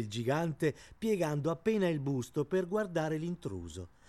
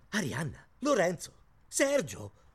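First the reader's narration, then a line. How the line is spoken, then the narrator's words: Exclaimed. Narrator (Italian): esclamò Zeno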